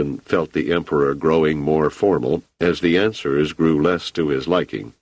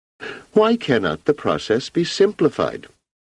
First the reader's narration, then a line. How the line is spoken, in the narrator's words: Cleon asked sharply